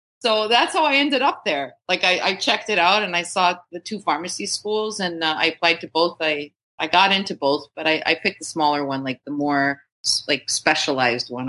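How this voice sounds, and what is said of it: Accent drifting toward Boston. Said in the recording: “did you notice your accent changing during that whole exchange there where you were talking about going from Florida to Boston?”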